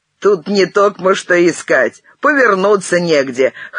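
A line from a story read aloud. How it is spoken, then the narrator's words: Snorting. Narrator (Russian): хмыкнул Беняк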